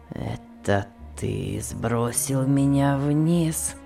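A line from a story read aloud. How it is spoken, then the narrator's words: Weak voice. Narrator (Russian): спросил Том слабым голосом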